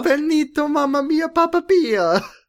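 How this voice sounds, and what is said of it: Exaggerated fake Italian accent. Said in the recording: “an aggressively real Italian accent ... we're not doing this accent justice. Our Italian accent ... is better.”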